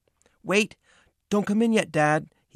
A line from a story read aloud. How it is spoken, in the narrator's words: cried